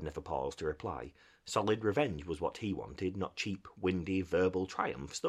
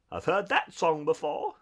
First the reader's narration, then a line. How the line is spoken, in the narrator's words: said Toad, laughing